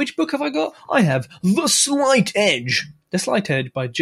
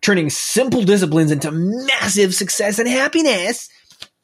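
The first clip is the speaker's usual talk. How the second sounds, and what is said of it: Poor put-on American accent. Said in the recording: “as Americans would say ... That was a bad accent.”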